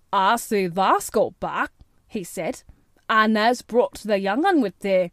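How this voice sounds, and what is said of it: Broad Yorkshire accent. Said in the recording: “pronouncing his words in a queer, broad fashion which Mary found out afterward was Yorkshire.”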